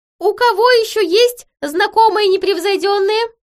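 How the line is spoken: Loud desperate question. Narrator (Russian): громко спросил Хиша, отчаянно пытаясь вновь завладеть доверием фей

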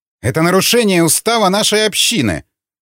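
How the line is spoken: Exclaimed. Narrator (Russian): воскликнул Эдвард

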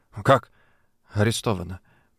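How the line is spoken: Disbelieving mutter. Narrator (Russian): пробормотал я, будто не веря своим ушам

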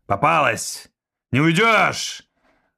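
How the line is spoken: Yelling. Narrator (Russian): завопил тормансианин

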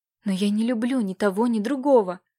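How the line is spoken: Tearful pleading. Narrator (Russian): взмолилась Катюша, и на ее глазах навернулись слезы

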